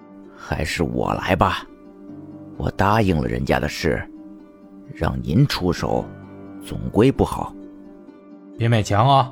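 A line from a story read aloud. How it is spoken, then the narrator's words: Through gritted teeth. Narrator (Chinese): 叶问咬牙切齿的道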